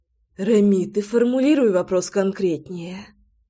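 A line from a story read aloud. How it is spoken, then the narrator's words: Breathy exhale. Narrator (Russian): выдохнула Громова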